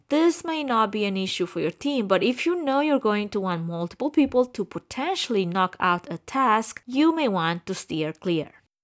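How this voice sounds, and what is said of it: Romanian-accented English. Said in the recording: “I'm Romanian ... I speak with an accent, so I'm proud of that too.”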